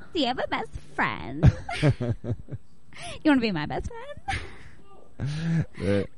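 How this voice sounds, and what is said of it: Imitates a comedy character's voice. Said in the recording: “I think I can do a better impression of the”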